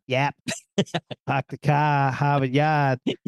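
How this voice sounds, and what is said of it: Boston accent. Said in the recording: “can you say yup in a Boston accent?”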